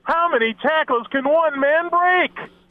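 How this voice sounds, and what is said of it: Impression of play-by-play announcer Jim Nance. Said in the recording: “Of the play-by-play man ... That's a good impression, actually. ... That was pretty good. Yeah, old Jim Nance.”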